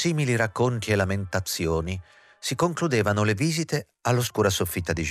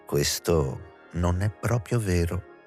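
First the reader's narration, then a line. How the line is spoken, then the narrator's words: Calm, deep voice. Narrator (Italian): rispondeva Juliette con la voce calma e profonda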